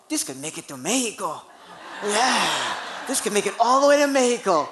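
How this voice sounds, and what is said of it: Put-on Mexican accent, admittedly bad. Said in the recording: “I'm sorry if my Mexican accent is really bad”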